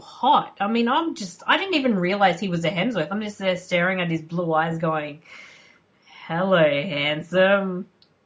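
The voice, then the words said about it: Australian accent. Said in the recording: “The Australians are just sexy... We've got the accent... You've just enjoyed listening to my accent for like an hour... Aussie accent”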